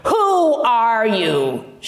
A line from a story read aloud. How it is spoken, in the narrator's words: barked